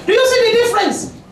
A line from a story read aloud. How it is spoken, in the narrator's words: I shouted